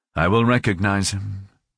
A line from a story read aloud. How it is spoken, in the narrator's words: he said